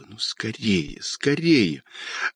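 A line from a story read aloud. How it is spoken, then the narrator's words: Impatient whisper. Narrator (Russian): нетерпеливо шептала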